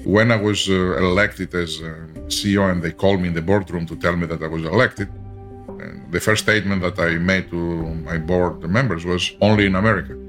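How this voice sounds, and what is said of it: Very heavy foreign accent. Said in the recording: “I have a very heavy accent.”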